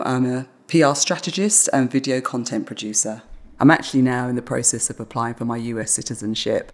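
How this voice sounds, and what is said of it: British accent. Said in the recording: “I love my British accent.”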